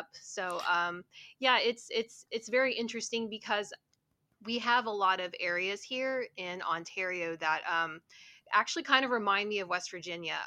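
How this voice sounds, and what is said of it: West Virginian accent. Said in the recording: “still very much a West Virginian ... a lot of people can usually tell by my accent that you know I'm I'm not from here”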